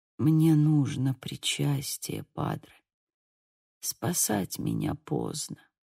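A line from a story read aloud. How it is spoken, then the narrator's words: Barely audible, dying man. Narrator (Russian): еле слышно произнес умирающий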